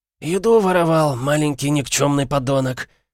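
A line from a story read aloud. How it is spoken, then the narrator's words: Old man's rasp over shouting. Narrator (Russian): прохрипел старик, перекрикиваемый нескончаемыми ругательствами мальчишки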